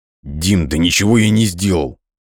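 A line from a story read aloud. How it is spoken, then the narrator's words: Forced out, strained. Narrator (Russian): выдавил из себя Игорь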